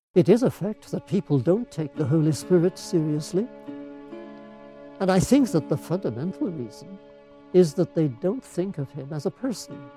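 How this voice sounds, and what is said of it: Elderly Canadian-British accent, slightly mumbled. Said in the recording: “He's quite an old guy. He's got this funny accent, Canadian-British, and he mumbles a little bit.”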